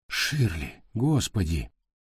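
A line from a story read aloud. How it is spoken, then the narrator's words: Breathless exhale. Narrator (Russian): выдохнул он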